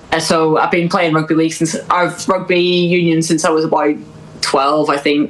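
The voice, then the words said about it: Northern Irish accent. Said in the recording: “I'm from Northern Ireland, from the accent”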